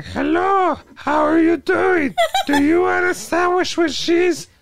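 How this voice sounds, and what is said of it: Imitates another person's voice. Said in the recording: “doing the voice ... The voice of Tiffany. Jennifer Tilly.”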